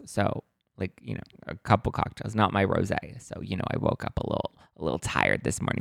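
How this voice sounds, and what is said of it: Hoarse, partly lost voice. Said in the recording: “My voice is a little bit gone ... I had to project my voice very much ... my voice is a little kind of almost gone-ish”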